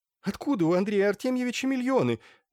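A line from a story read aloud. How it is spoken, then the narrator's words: Exclamation. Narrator (Russian): воскликнула Змеева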